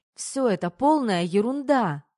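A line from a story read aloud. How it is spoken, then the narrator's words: Two girls shouting. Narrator (Russian): кричали ей вслед Катя и Полина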